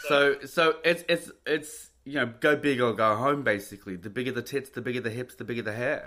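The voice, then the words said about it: Speaks with a distinct accent. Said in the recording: “I love your accent. I could listen to it all day.”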